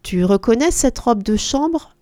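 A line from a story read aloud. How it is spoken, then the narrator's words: Plain. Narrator (French): lui demanda-t-elle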